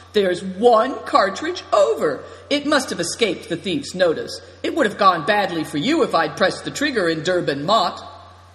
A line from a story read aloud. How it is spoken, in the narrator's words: he cried, pretending to be astonished